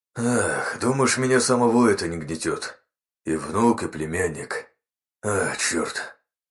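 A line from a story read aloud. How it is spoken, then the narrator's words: Father sighing. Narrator (Russian): вздохнул отец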